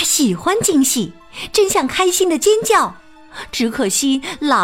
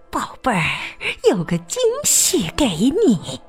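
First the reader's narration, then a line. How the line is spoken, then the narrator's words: Low hushed voice. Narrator (Chinese): 薇薇压低嗓门说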